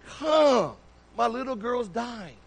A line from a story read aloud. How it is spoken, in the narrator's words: earnestly pleading